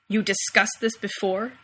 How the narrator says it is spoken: Sam snarls, but the sound is muffled because he's still under his wings

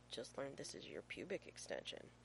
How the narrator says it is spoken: John Shepard murmurs

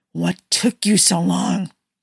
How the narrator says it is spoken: Steve hissed

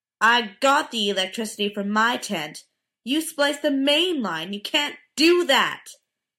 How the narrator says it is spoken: Dean shouted

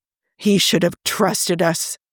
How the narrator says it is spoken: he mutters at last

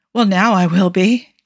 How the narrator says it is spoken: Joe said breathlessly

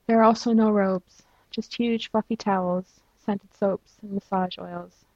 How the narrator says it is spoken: Chapel said wistfully

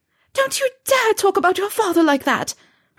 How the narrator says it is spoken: her mother screamed

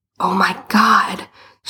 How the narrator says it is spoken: she hissed

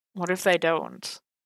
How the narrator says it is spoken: Marcy sighed again and mumbled doubtfully

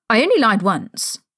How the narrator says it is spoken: Harry snapped

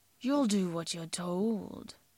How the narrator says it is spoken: Jim hisses

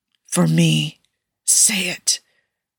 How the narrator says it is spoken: Tony hissed, voice crackling and breaking around the words like the words themselves were painful

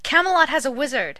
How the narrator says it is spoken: Will screamed

